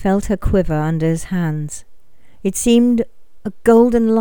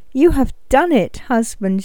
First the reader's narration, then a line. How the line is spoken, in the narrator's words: she cried